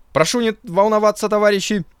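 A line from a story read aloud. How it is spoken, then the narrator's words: Panicked falsetto shout. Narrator (Russian): совсем уж фальцетом закричал потерявший голову Валерна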